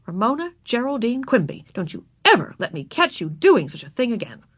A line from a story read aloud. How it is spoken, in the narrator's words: she said angrily